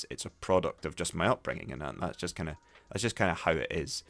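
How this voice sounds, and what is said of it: Scots English accent. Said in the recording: “My accent when speaking English is, you know, it is what it is. It is this sort of Scots English. It's more Scots English than it is pure”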